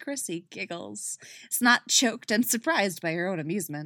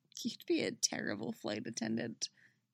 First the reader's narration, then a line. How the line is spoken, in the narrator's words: she says quietly